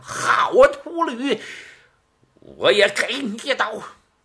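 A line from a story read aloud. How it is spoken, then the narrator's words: Shouting. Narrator (Chinese): 李武 喊了一声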